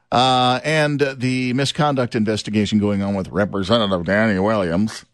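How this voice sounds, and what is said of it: Imitates a morning radio host's voice. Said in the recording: “I'm talking like this because that's my impersonation of Danny Williams, the radio guy ... from morning radio years ago”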